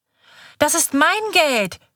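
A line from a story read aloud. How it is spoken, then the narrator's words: Shouting, starting to cry. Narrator (German): schreit Kaiser und beginnt zu weinen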